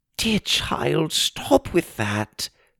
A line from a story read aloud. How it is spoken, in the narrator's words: Ma pleaded